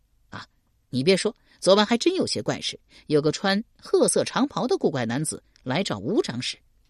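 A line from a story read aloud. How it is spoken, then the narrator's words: Laughing. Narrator (Chinese): 笑道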